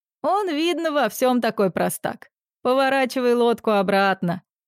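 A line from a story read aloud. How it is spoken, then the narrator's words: Group laughing. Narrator (Russian): все разразились хохотом и решили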